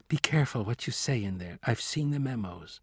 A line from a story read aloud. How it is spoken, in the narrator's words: She whispered